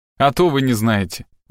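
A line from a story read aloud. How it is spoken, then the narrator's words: Smirking. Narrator (Russian): ухмыльнулся Фишер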